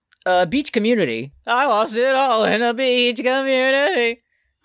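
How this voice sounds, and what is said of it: Imitates a band singer's voice. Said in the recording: “my Joyce Manor impression... That was pretty good”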